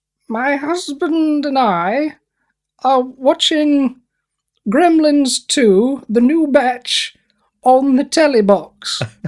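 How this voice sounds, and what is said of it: Impression of the Queen. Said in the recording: “Can you do an impression of the Queen?”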